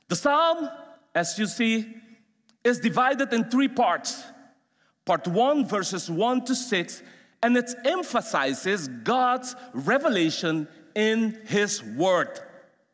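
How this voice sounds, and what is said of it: Speaks English with an accent. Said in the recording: “Sorry for my accent.”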